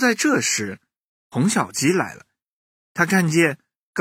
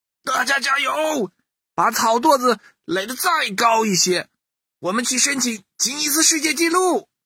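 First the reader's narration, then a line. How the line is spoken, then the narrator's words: Excited shouting. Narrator (Chinese): 图图将军更来劲儿了，喊了起来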